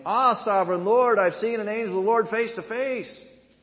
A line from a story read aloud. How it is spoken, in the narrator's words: When Gideon realized it was the angel of the Lord, he exclaimed